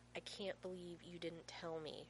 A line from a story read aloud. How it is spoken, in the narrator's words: John growls